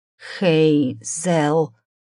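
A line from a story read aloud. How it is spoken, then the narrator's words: Hoarse, barely audible whisper. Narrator (Russian): хриплый шепот был едва слышен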